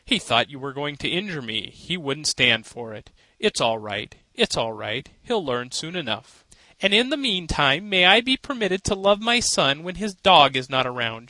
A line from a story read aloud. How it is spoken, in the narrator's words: she laughed, though she was pale and weak from the fright